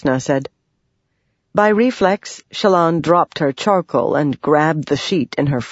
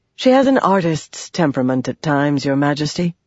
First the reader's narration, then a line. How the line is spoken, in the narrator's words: Jasnah sighed